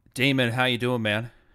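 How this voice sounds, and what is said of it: Put-on American accent. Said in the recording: “Can you do an ... American accent? ... That's pretty good. ... No, that is not good. That is not good.”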